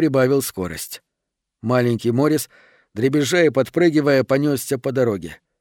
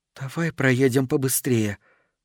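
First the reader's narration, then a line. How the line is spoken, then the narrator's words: Whisper. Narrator (Russian): шепнула ему жена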